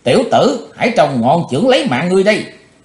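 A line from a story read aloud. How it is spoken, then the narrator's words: Sudden loud shout. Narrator (Vietnamese): Cái thế hồng bỗng quát lớn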